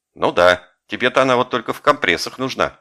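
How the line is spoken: Snapping retort. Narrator (Russian): огрызнулся Коля

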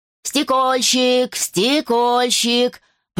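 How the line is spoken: Street vendor's cry. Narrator (Russian): прокричал разносчик

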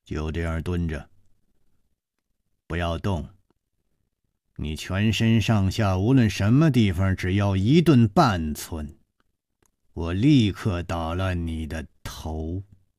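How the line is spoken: Cold. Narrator (Chinese): 一个人冷冷地说

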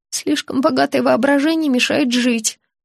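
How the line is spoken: Timid babble. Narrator (Russian): пролепетала

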